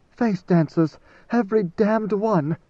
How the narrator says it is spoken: Idaho panted

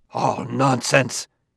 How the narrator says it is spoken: gasped out Liebig

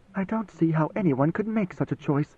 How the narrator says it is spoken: she muttered

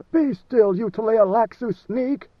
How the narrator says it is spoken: Leto roared

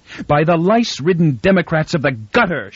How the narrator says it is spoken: shouted Inber back at him

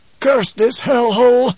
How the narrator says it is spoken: Presently he gasped

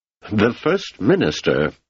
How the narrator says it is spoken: he said in an almost strangled voice, not at all like the carefully cultivated tones he had painstakingly assumed along with the throne

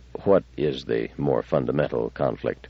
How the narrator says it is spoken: He did not feel it safe to display irritation, so he said quietly, almost tentatively

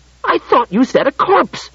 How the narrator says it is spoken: said in an outraged voice

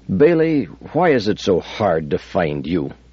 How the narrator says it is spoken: he said

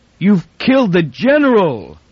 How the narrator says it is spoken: With a wild, incoherent yell

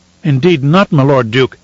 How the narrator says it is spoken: he cried

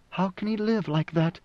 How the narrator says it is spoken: Siona whispered

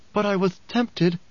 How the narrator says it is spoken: sighed

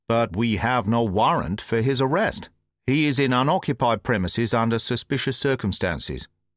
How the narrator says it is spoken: said Gregson

